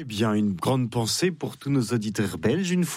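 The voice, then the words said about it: Put-on Belgian French accent. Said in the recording (French): “pardonnez-moi cet accent, j'avais pas le droit de le faire”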